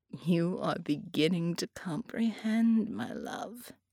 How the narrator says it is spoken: she purred

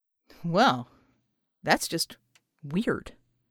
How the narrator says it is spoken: he muttered

